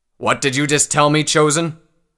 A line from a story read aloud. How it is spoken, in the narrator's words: a deep-voiced pony shouted